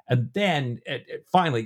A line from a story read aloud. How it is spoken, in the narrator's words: Johnson cries